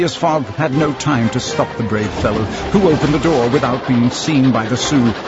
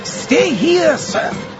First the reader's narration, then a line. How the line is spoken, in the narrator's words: Passepartout shouted to him